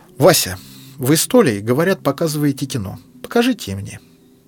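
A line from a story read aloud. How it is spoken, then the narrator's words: Calm. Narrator (Russian): Спокойно сказал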